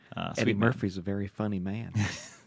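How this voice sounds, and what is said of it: Imitates another person's voice. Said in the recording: “Hey, not bad. A little comeback for you. ... I'm a fan of your impersonations ... Mr. Rogers.”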